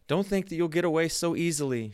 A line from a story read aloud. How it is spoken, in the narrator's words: she cried